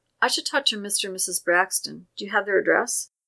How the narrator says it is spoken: He smiled sadly

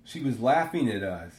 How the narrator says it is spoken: he says

